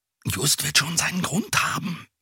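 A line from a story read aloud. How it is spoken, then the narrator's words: Whispered back. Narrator (German): flüsterte Bob zurück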